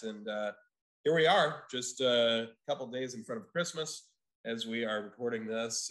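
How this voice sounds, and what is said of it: Rough, sick-sounding voice. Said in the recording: “excuse my voice because I'm recovering from COVID”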